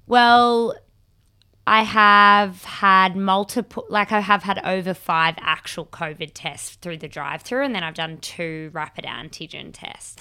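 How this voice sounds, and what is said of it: Sounds sick, with a cough. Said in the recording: “You sound sick, though ... I just have a cough ... the cough's gross”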